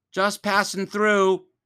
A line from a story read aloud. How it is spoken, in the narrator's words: Ellie shouted